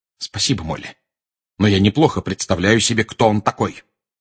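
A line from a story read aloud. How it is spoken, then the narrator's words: Cold reply. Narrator (Russian): холодно ответил Сириус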